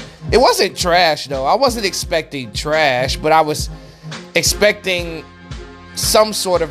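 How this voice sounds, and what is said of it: Usual voice. Nothing is said of it.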